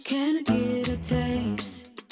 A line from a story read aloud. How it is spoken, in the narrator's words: Pussy purring